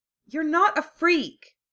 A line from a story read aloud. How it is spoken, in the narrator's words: Hermione said fiercely